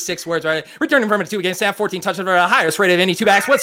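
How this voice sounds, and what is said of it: Rapid auctioneer-style delivery. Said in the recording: “doing my auctioneer voice”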